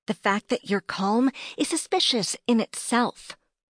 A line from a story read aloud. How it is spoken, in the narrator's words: I snapped back